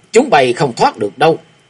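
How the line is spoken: Loud roar. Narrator (Vietnamese): Lại Hòa Thượng Dương lúc này lại gầm lớn

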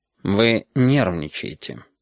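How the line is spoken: Sigh. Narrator (Russian): Стерх вздохнул

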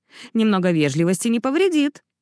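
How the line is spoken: Barked. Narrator (Russian): рявкнула она ему

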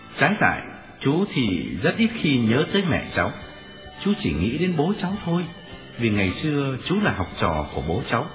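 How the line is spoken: Smiling. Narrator (Vietnamese): Tôi mỉm cười

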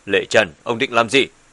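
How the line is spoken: Suddenly angry. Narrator (Vietnamese): Bùi Thiên Âm lập tức biến sắc, tức giận nói

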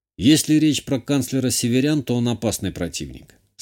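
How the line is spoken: Calm. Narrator (Russian): спокойно ответил я

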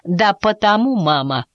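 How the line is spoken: Firm calm statement. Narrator (Russian): твердо и спокойно заявил Мартин

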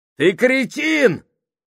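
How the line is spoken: Exclaiming. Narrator (Russian): воскликнул Кук

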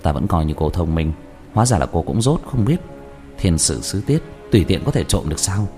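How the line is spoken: Sly laugh, lowered voice. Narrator (Vietnamese): Diệp Thiếu Dương rào hoạt cười hạ giọng

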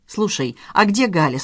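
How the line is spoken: Plain question. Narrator (Russian): спросил муж

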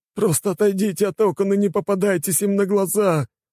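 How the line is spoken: Whining. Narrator (Russian): проскулил

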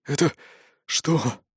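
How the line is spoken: Hoarse rasp. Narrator (Russian): прохрипел

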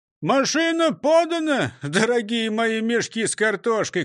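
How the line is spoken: Shout. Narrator (Russian): крикнул Крендель

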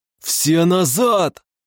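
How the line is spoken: Yelling. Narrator (Russian): Завопил

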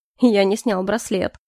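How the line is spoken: Scoffing grunt. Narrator (Russian): хмыкнул Калипсо

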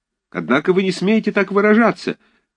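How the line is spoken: Uncertain young shout. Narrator (Russian): крикнул сзади чей-то неуверенный молодой голос

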